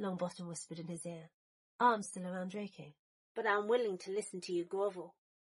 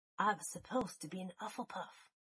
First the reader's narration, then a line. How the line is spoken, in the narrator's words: Longbottom whispered, as if it were a secret